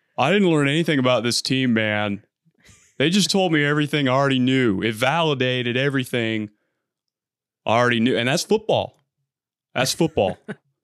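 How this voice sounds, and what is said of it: Dan Campbell impression. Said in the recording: “When I start talking like this, man. ... I can do a pretty good Dan Campbell ... Solid, actually. ... you bring a similar energy to Dan Campbell”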